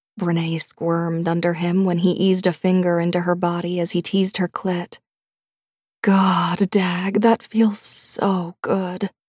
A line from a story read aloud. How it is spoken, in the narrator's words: she said huskily